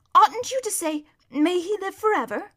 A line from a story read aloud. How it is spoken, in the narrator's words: put in Shasta in a rather shocked voice